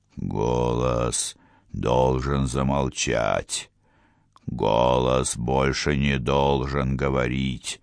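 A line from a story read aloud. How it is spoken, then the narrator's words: Entranced muttering. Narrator (Russian): пробормотал Отрам, почти закатив глаза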